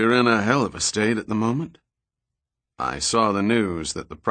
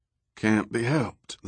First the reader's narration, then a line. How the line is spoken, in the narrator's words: the president replied in a weary voice